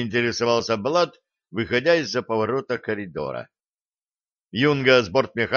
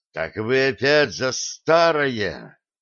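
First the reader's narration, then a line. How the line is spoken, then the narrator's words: Hissed with cold fury. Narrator (Russian): наливаясь холодной яростью, прошипел Влад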